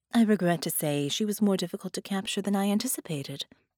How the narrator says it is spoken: Doppelganger said smoothly

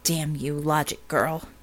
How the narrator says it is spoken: she muttered

